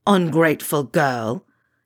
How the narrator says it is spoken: Yunin snarls

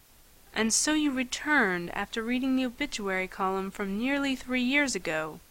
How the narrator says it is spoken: said softly

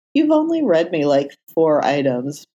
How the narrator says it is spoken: Matt protested, laughing

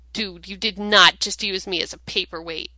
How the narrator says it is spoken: Dean snapped

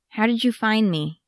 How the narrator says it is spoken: Yaskia asked

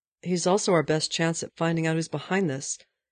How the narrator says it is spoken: Steve said

